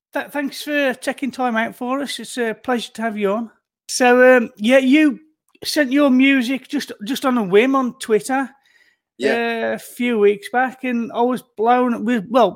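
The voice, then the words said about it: Birmingham accent. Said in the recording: “I'm just shy of Birmingham... Oh, I can hear the accent. All right. I hear it.”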